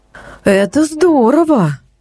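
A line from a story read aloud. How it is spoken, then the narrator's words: Envious sigh. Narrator (Russian): Вздохнула Марго, как мне показалось, с легкой завистью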